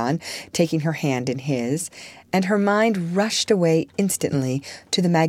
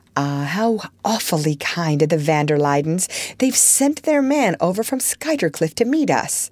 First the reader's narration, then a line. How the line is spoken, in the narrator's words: Archer exclaimed